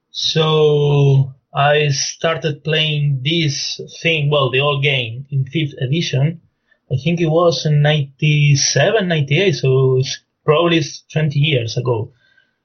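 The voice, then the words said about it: Argentine Spanish-influenced English accent. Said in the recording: “my accent is quite strange, so I'm from Argentina originally, but I've been living in Spain”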